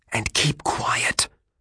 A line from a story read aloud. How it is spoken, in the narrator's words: I whispered